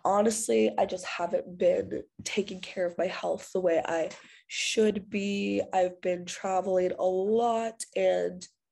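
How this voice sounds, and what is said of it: Congested, sick-sounding voice. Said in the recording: “As you can hear in my voice, I have a cold.”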